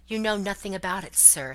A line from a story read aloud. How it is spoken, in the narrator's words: said the squire sharply